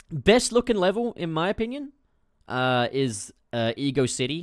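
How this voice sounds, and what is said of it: Usual voice. Nothing is said of it.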